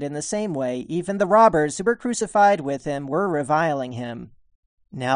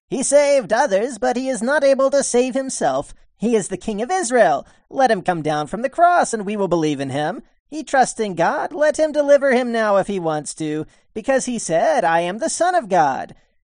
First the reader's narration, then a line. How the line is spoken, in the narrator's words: were mocking him, saying